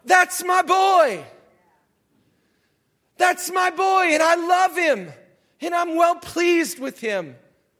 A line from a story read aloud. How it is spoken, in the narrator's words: This voice just shouts out